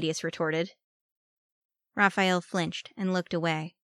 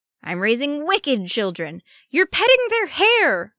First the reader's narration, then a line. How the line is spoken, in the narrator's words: Raphael exclaimed